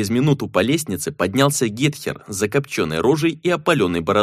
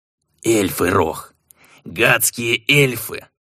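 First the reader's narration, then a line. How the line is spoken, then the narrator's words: Growling. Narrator (Russian): прорычал Гетхер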